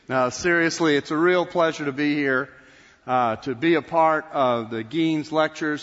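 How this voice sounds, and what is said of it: Texan Southern accent. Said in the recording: “from the state of Texas... I can speak in my normal accent”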